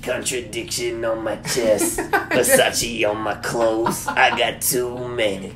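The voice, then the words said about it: Scratchy, raspy imitation of a rapper. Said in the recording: “my SPM impersonation ... it sounds like you've been smoking blunts all night and your throat is just scratchy”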